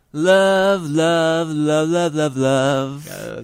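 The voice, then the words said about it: Sings an imitation of a song opening. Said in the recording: “That's my impression of the opening of the song”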